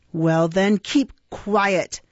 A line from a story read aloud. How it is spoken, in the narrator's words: rejoined Sykes, with a growl that, like he was accustomed to use when addressing his dog